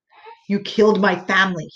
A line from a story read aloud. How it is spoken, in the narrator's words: spoke in my ear through gritted teeth